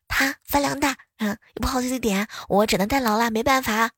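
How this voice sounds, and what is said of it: Quiet, hushed speech. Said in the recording (Chinese): “小声的”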